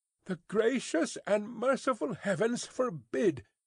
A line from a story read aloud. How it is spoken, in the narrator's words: cried Miss Pross